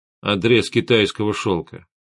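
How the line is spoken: Calm. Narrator (Russian): спокойно ответил Гессер

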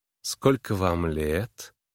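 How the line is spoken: Lazy, languid voice. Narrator (Russian): голос ее звучал лениво и томно

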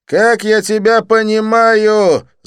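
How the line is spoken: Yelling. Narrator (Russian): заорал он

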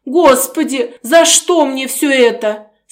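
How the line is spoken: Moaning woman. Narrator (Russian): стонала она

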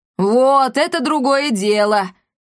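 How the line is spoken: Ecstatic yell. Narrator (Russian): восторженно завопила Коптильда

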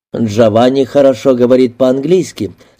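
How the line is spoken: Plain. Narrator (Russian): сказал мистер Мейлер

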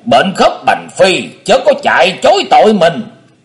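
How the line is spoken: Booming roar. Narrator (Vietnamese): Tình Tiên Kiếm Khách gầm vang

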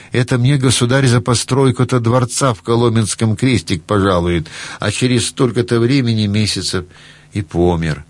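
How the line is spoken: Laughing old man. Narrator (Russian): А дедушка стал смеяться

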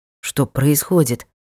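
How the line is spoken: Hoarse question. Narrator (Russian): хрипло спросил воин

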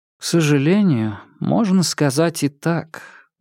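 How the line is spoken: Sad reply. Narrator (Russian): грустно ответила Нарцисс

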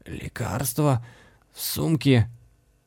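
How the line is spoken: Hopeless wheeze. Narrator (Russian): с безнадежностью, в голосе прохрипела

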